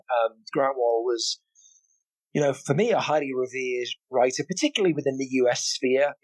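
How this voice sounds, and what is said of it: British accent. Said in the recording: “coming from the UK, listeners, you may have noticed I have an accent.”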